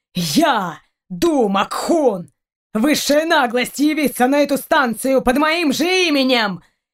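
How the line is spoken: Furious shout. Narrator (Russian): Яростно выкрикнул Раун

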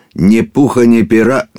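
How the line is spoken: Peacock speaking loudly. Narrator (Russian): громко сказал павлин

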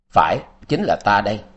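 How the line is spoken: Cold laugh. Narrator (Vietnamese): Quan Thiên Đạt cười lạnh lùng nói

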